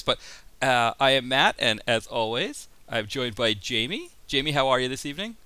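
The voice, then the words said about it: Strained voice, losing his voice. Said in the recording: “losing my voice”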